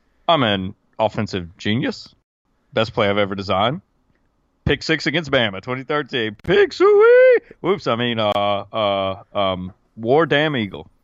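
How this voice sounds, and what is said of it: Barack Obama impression. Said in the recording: “I feel like I was starting to sound like Barack Obama ... I'm gonna do Barack Obama impersonating.”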